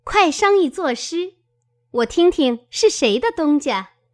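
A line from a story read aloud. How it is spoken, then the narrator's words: Laughing. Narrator (Chinese): 湘云笑道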